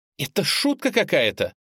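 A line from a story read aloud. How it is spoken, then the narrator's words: Angry, frightened exclamation. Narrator (Russian): Настя воскликнула зло и одновременно испуганно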